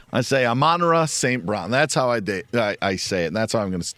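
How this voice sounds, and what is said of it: Speaks with a noticeable accent. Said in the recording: “if the emphasis is wrong, I'm just going to blame it on my accent”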